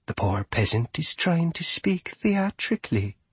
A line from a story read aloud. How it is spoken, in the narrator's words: Sylvanadriel whispered